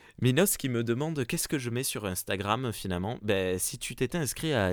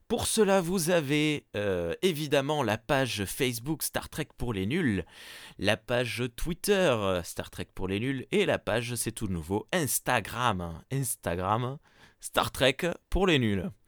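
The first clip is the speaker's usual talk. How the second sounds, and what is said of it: Forced, unconvincing southern French accent. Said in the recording (French): “Pourquoi tu prends un accent du sud raté? ... je sais pas ce que t'as fait en forçant sur ton accent, mais je sais pas, ça sonnait pas.”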